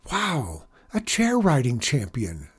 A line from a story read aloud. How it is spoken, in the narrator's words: Zack exclaimed